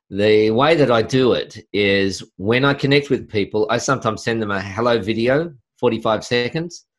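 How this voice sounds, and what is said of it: Australian accent. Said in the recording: “the Aussie accent”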